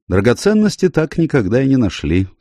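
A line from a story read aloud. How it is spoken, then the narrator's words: Dry answer. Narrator (Russian): сухо ответил Найтон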